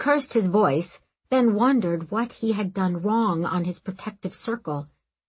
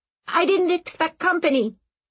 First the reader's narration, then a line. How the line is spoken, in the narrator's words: Aram squeaked